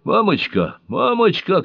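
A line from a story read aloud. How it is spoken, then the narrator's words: Shouting from below. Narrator (Russian): кричал снизу Мэнни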